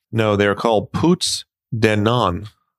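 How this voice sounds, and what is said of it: Poor put-on French accent. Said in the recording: “forgive my poor French accent. I don't speak French.”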